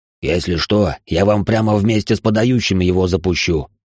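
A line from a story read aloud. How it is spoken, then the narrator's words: Angry growl. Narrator (Russian): зло прорычал защитник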